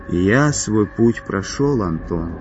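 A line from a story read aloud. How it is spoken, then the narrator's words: Almost tender. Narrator (Russian): почти ласково сказал Игорь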